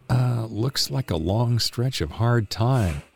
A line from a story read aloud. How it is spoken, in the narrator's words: I mumbled